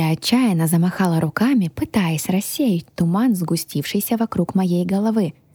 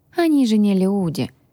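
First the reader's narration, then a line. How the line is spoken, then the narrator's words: Dragon sighing. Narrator (Russian): вздохнул дракон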